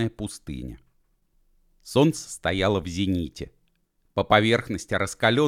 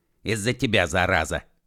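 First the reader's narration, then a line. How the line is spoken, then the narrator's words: Angry. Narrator (Russian): сердито сказал Уэф Машкову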